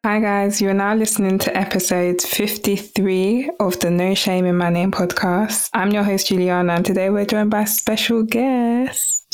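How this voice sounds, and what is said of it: Calm, soothing speaking voice. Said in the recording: “your voice is so calming? I think you have a career in reading calming things to people.”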